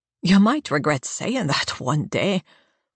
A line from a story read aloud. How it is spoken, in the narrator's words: Coleman laughs